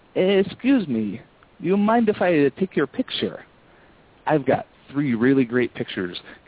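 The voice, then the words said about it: Put-on foreign accent. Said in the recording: “I put on a foreign accent.”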